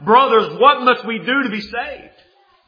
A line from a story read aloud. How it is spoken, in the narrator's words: cut through the heart to such a point that they cried out